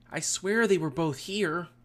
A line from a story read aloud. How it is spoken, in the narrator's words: Ty Lee exclaimed